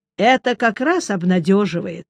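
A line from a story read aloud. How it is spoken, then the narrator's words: Calm. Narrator (Russian): спокойно сказал я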